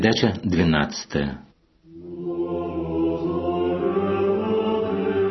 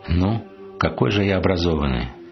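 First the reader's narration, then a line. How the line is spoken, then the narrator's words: Calm reply. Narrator (Russian): спокойно ответил он мне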